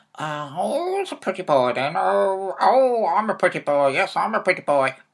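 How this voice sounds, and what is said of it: Parrot-like squawky character voice. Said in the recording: “Can you talk like a parrot, Dad?”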